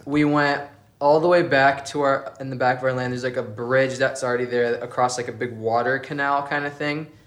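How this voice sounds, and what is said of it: South Dakota accent. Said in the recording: “It's the South Dakota accent.”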